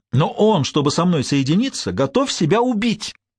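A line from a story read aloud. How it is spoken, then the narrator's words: Ecstatic trembling exclamation. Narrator (Russian): трепеща от восторга, воскликнула пышная шевелюра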